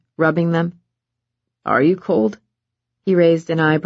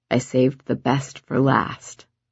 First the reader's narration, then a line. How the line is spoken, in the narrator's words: Levi said softly